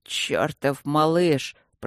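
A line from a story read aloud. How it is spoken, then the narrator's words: Admiring mutter. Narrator (Russian): пробормотал барон восхищенно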